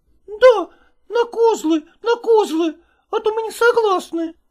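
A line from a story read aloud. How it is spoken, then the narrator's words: Shrieking girls. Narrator (Russian): визжали девицы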